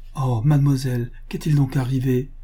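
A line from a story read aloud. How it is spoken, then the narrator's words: Exclaiming. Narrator (French): s'écria Adela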